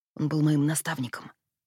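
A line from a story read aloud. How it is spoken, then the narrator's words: Whisper. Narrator (Russian): прошептал Джем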